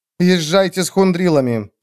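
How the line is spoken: Plain. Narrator (Russian): сказала ей Кругава

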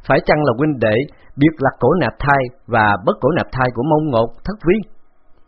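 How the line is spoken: Loud laugh. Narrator (Vietnamese): Khấu Trọng cười lớn

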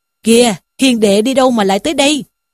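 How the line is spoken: Sudden joyful. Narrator (Vietnamese): Lý Trung bỗng hớn hở mà rằng

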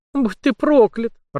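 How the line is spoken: Tearful moan. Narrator (Russian): размазывая слезы по щекам, простонала она

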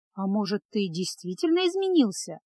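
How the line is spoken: Thoughtful question to herself. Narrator (Russian): задумчиво спросила Феска, больше обращаясь к самой себе, чем к спутнику

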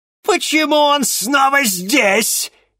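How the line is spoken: Furious shout. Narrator (Russian): яростно выкрикнула она

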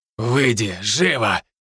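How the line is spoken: Angry command. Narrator (Russian): велел он злым голосом

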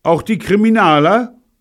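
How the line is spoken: Calling out. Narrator (German): rief

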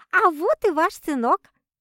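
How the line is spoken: Cheerful chirping. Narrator (Russian): радостно прощебетала

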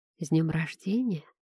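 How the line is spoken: Whisper. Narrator (Russian): прошептал Дик

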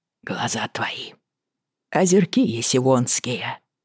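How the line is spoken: Quiet bitter recitation. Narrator (Russian): процитировал он тихо и горько

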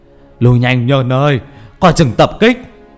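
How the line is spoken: Calling out. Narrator (Vietnamese): Thầy Dương ngồi ở trong nhà kêu lên

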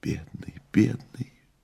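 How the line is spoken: Soundless whisper. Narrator (Russian): беззвучно зашептала Маргарита

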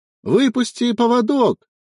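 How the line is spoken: Shouting. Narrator (Russian): заорал он

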